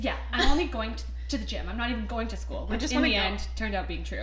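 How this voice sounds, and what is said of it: Talking really fast. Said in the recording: “I'm talking really fast... Slow down.”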